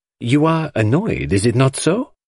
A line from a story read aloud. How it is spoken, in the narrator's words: he asked anxiously